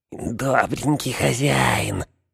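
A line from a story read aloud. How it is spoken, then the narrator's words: Whisper. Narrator (Russian): прошептал он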